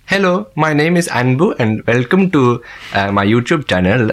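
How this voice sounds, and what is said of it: Indian English accent. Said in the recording (French): “donc c'était l'anglais indien”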